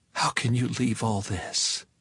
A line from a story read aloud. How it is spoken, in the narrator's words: whispered